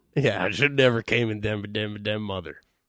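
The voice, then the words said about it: Thick Southern accent imitation. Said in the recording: “thick Southern accent”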